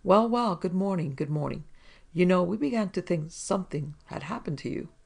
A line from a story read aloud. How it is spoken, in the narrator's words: Captain Cripp looked wide-eyed and hearty and without a sign of a chill as he exclaimed